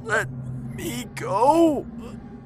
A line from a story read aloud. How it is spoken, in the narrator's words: gasped